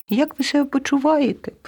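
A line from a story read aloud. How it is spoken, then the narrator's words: Squeaked, a mouse. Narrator (Ukrainian): пропищала руда миша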